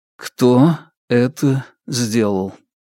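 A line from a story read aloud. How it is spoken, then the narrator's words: Even, flat tone. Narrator (Russian): ровным тоном повторил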